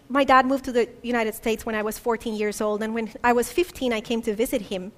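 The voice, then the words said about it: Colombian Spanish accent. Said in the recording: “I'm Colombian, and I grew up in Colombia, if you hadn't picked up from the accent.”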